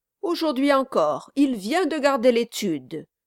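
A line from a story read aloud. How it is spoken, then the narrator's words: Triumphant repetition. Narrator (French): répéta Brass d'un ton triomphant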